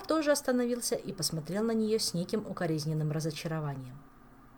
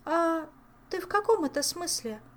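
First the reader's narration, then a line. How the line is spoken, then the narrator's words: Confused question. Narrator (Russian): растерянно переспросила она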